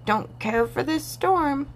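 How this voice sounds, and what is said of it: Deep croaking frog voice. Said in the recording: “croaked a deep voice.”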